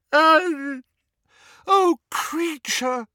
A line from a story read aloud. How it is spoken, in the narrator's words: wailed Hermione, who was crying